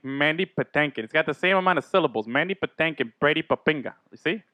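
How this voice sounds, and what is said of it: Usual voice. Nothing is said of it.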